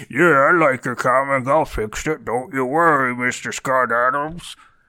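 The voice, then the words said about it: Performed character voice. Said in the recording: “Wow, that's a pretty good impersonation.”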